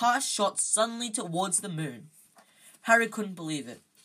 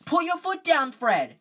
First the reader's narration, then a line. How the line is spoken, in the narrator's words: Ron yelled